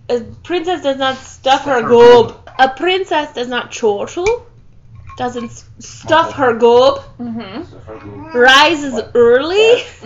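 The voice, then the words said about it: Faltering put-on Scottish accent. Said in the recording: “My Scottish accent is failing right now.”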